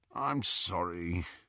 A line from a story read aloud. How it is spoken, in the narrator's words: Ron said, moaning a little as he raised himself